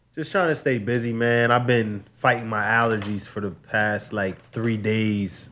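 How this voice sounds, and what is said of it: Congested, stuffy voice. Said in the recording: “They've been winning, so as you can hear in my voice ... despite the way I sound”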